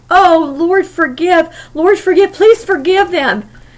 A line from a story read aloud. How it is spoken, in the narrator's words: the pleading mumblings